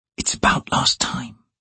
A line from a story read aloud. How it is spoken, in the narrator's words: he whispered